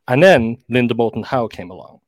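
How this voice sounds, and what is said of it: Announcer-style radio voice. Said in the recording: “that was my my that was my radio voice.”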